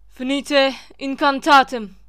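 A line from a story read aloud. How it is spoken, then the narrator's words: Shouted. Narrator (Turkish): diye bağırdı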